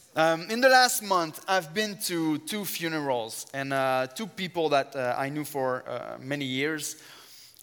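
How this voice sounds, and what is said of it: Strong French accent. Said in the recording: “I have an accent. ... even if I have a very strong French accent.”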